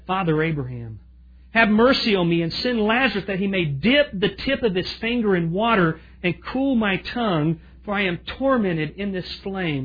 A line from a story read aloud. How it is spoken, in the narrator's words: he cried and he said